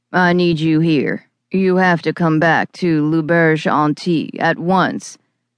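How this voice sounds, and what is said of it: Serious, throaty Cajun-accented male voice. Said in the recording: “the eerie timbre of his serious voice and his throaty Cajun accent”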